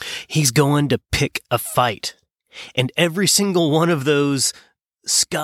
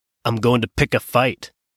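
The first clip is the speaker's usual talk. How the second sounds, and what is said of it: Attempted Scottish accent. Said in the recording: “that was my best attempt at a Scottish accent. I'm sorry.”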